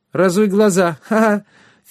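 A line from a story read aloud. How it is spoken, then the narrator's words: Demonic laughter. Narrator (Russian): Фея демонически расхохоталась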